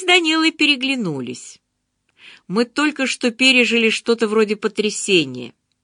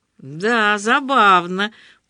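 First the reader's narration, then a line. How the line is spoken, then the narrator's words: Drawled. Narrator (Russian): протянул я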